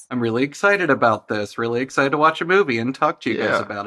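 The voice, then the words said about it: Slight Southern US twang. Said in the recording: “a little southern twang coming at you from Atlanta”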